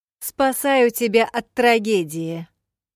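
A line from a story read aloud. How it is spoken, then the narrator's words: Loud shrill shriek. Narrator (Russian): леди Эстель громко пронзительно завизжала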